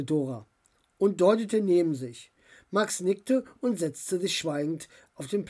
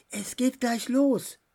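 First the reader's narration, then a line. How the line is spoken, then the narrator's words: Whispered. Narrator (German): flüsterte sie ihm zu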